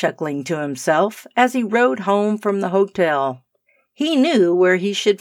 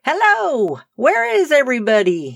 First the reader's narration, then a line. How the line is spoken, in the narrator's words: he cried